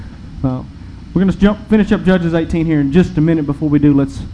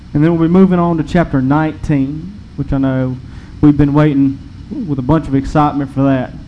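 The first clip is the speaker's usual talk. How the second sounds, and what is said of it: Sarcastic delivery. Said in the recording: “why I'm being sarcastic.”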